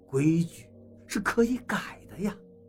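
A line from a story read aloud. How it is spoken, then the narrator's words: Sighing. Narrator (Chinese): 王八叹了口气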